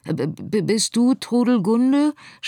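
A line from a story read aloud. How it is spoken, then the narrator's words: Stuttering. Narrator (German): stotterte Scarlett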